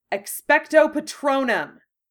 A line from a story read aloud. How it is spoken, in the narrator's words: shouted